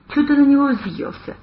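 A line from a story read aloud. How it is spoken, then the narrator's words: Lazy inquiry. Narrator (Russian): лениво поинтересовался Савелий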